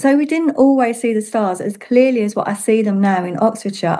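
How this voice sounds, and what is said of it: London English accent. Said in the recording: “as someone who used to live in London, as you can probably tell by my accent”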